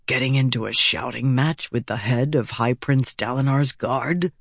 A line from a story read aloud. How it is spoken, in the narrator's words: he whispered to her